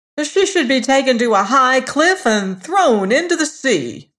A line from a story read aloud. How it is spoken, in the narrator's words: the false bride cried boldly